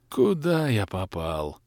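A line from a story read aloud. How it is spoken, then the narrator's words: Moan. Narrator (Russian): простонал я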